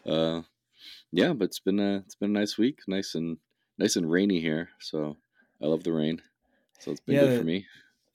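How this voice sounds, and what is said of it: Stuffy, congested voice. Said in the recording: “you can hear I've got a cold”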